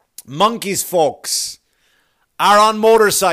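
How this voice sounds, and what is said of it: Usual voice. Nothing is said of it.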